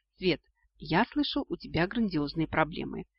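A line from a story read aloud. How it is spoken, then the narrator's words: Quiet. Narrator (Russian): тихо произнес он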